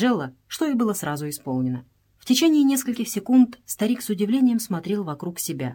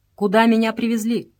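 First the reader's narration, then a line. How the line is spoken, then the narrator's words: Firm question. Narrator (Russian): спросил он твердым голосом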